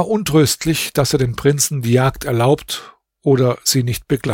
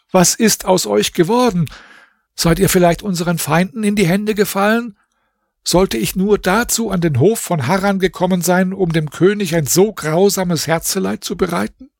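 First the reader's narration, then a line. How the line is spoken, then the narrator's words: Exclaimed. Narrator (German): rief er aus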